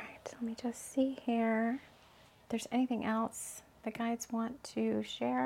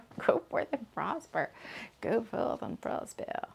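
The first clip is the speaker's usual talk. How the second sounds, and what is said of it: Put-on Florida accent. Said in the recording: “I'm saying it all in the Florida accent”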